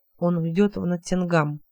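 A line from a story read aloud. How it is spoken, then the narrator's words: Very quiet repetition. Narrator (Russian): повторил Хелот совсем тихо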